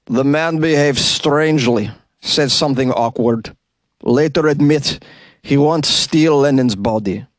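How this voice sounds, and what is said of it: Mock Russian accent. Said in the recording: “pretty half-assed Russian accent... It gets a little better.”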